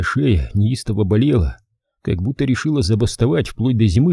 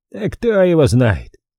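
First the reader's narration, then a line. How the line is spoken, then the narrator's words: Snorting. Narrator (Russian): хмыкнул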